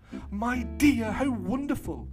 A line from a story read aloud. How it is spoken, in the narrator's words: exclaimed Mrs